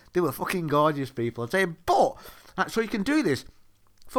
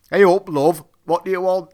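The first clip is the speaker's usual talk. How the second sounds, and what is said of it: Thick Lancashire accent. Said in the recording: “In a thick Lancashire accent.”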